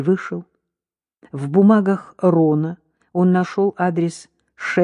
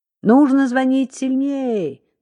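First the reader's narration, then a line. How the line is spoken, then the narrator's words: Woman shouting. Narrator (Russian): закричала женщина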